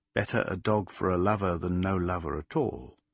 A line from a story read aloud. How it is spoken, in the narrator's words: something in her whispered